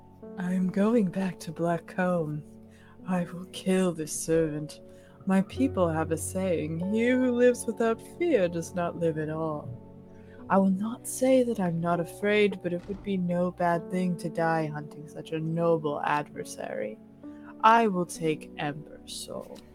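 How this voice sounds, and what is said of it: Performs a character's voice. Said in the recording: “did his voice”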